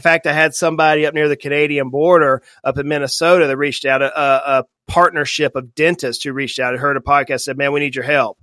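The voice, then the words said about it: Slight Southern US accent. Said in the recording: “even though I say y'all and I have a little bit of accent, they're not all here in the South”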